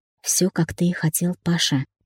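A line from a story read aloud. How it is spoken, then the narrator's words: Gentle, as to child. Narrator (Russian): мягко, как ребенку сказала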